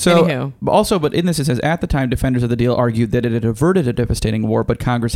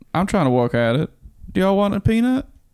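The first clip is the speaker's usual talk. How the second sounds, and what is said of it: Jimmy Carter impression. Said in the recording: “my Jimmy Carter impression. ... It's getting better. ... Well, it's not getting worse.”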